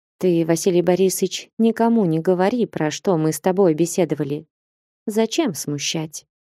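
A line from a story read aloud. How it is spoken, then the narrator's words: Soft whisper. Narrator (Russian): тихонько шепнула ему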